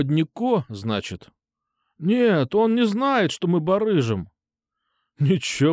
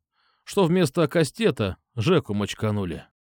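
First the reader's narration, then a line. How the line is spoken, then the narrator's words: Wry snort. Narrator (Russian): хмыкнул я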